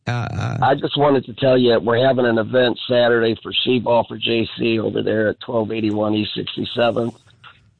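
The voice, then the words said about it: Strained, worn-out voice. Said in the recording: “My voice is a little shot.”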